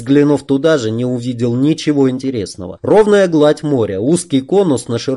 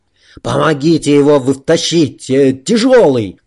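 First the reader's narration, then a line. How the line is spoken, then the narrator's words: Shouted. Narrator (Russian): крикнул Муса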